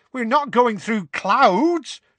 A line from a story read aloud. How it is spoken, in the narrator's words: shouted Tonks angrily